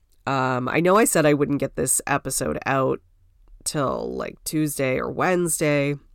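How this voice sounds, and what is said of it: Sick-sounding voice. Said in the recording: “I'm getting over this illness. You might be able to hear it in my voice.”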